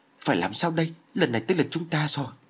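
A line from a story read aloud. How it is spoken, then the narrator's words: Panicked anxious question. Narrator (Vietnamese): Vương Tiên Giao vô cùng sợ hãi, chỉ như sắp suy sụp đến nơi, nôn nóng hỏi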